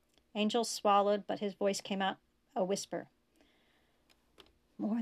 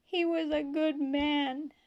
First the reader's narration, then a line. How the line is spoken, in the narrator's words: she sobbed